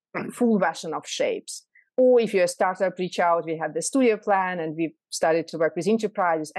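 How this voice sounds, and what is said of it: Strong foreign accent. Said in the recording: “your accent's quite strong”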